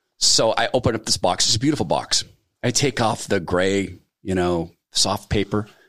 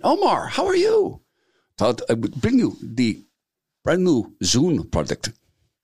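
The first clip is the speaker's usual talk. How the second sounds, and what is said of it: Imitated Indian accent. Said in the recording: “when I imitate his accent, he laughs, so he thinks it's funny, and I happen to love the Indian accent.”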